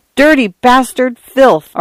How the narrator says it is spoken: Arthur cried

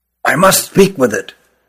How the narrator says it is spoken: whispered Rugum

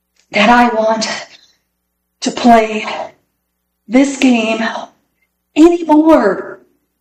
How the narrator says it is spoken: said Peter in between gasps of air

